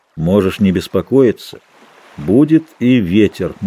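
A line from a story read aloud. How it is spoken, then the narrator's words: Gloomy reply. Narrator (Russian): мрачно ответил капитан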